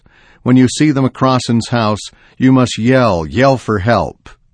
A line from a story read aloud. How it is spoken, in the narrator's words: she gasped through tortured breaths